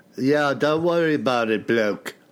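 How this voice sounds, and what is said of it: Put-on Liverpool accent. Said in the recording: “you got to do your Liverpoolian accent.”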